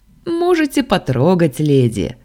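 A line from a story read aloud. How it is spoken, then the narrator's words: Chuckled. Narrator (Russian): хохотнул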